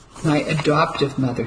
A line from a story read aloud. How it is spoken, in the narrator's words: he said